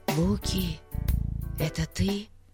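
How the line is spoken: Whisper. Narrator (Russian): прошептал Пип

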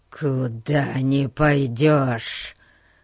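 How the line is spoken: Hissing. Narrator (Russian): прошипел он

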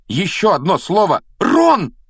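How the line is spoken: Sudden exclamation. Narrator (Russian): вдруг воскликнула Гермиона

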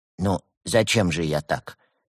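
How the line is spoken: Calm musing aside. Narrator (Russian): спокойно произнес он, в сторону, как бы размышляя вслух

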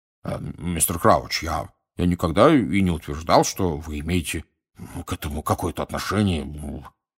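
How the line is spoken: Embarrassed mumble. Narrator (Russian): пробормотал Амос Дигори пунцово краснее за своей косматой бородой

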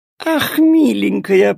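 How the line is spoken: Purring. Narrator (Russian): промурлыкала она

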